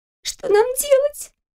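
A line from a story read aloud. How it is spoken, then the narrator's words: Squeaked. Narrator (Russian): пискнула рядом Кристина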